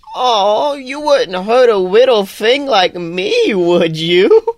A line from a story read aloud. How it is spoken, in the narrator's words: She laughs